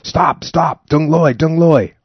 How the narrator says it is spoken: I yelled to no avail

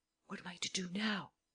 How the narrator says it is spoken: The man whispered to Lupin

